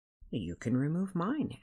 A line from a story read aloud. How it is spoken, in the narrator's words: Andrew offered kindly